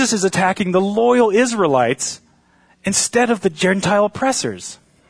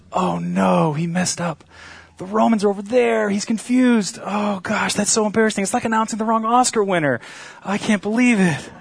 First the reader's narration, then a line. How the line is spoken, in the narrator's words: they're whispering